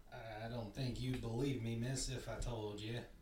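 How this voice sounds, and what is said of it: Character voice with odd accent. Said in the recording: “he's got this weird accent”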